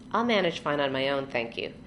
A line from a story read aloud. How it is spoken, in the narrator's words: Charlie told her dryly